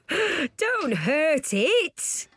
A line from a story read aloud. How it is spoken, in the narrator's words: laughed Dad